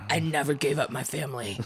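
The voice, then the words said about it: Bad put-on accent. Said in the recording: “I know it's a bad accent”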